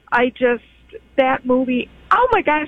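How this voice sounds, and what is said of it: Choked-up, emotional voice. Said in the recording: “I'm getting choked up.”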